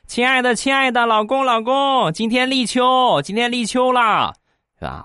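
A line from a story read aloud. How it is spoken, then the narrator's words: Loud calling. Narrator (Chinese): 我媳妇儿跟我大声的喊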